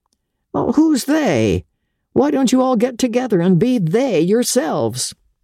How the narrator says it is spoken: laugh lingered on his lips in a slightly condescending smile

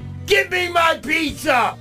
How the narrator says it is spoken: he shouted

